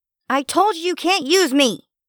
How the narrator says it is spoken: it squealed

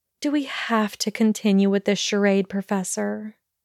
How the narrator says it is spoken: asked wearily

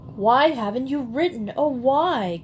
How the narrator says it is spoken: cried Sarah

